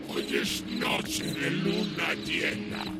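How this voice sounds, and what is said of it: Deep, eerie voice from beyond the grave. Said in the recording (Spanish): “con una voz de ultratumba”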